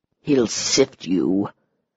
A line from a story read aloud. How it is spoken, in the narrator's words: he said in a low growl